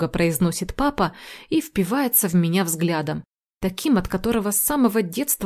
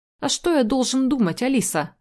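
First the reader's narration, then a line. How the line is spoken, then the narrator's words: Irritated reply. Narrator (Russian): Раздраженно отзывается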